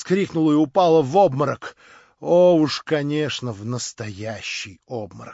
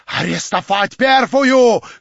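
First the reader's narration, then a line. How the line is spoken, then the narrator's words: Shout. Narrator (Russian): крикнул тот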